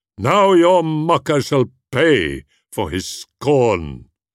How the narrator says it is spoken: he cried

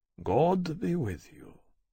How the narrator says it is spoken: he said gently

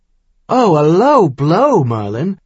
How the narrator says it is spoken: Caleb laughed

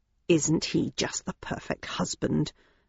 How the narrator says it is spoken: murmured Mother Daisy sarcastically

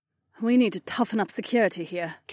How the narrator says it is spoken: Cat sighed

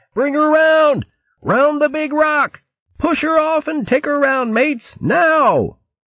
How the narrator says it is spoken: Fear echoed in Fermo's high-pitched yell

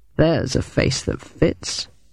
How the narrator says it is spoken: murmured Bowden

